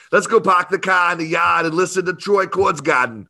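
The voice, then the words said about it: Poor attempt at Boston accent. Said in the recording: “from Boston or have that cool accent. ... Oh, that sounded a little more like Schwarzenegger or something. ... that was terrible, and I know it.”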